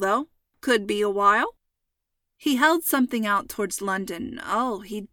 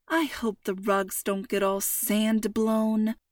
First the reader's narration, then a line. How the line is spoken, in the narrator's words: Mom muttered